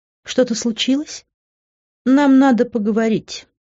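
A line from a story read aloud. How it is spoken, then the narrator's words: Calm explanation. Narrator (Russian): спокойно объяснил свое появление Грант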